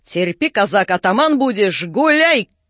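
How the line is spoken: Sudden shout. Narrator (Russian): Как крикнет англичанин

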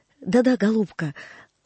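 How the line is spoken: Affectionate reply, professor. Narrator (Russian): ласково отозвался профессор

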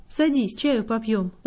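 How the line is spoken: Gentle. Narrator (Russian): ласково обратился он ко мне

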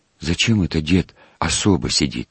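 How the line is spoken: Quiet question. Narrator (Russian): спросил тихо у Степки

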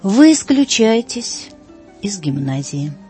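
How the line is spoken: Cold, calm. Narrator (Russian): проговорил холодно и спокойно директор

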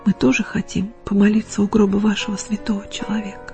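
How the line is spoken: Quiet. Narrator (Russian): тихо сказали

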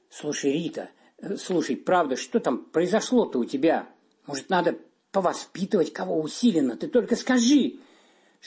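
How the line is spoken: Whispered. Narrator (Russian): шепнула Маргарите Иннокентьевне заместитель директора по воспитательной работе

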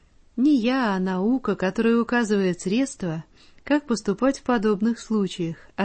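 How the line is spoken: Plain. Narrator (Russian): ответил врач

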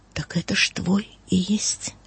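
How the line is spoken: Angel's astonished whisper. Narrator (Russian): ангел изумленно, и прошептал

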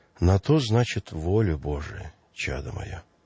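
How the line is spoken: Calm priest. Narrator (Russian): Священник же спокойно отвечал

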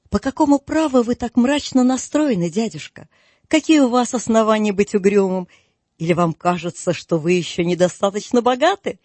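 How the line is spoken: Cheerful reply. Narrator (Russian): весело отозвался племянник

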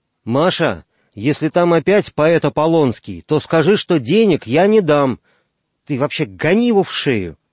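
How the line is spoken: Shouted out. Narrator (Russian): вслух выкрикнул

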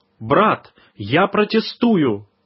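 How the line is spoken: Exclamation. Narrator (Russian): Он воскликнул

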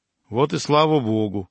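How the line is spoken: Calm reply, clergyman. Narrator (Russian): спокойно отозвался преподобный Амвросий

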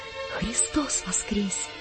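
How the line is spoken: Flustered, shy whisper. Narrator (Russian): Сам не свой, весь зардевшись, опустив глаза, я прошептал

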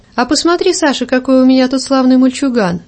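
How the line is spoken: Cheerful. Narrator (Russian): весело проговорила барыня

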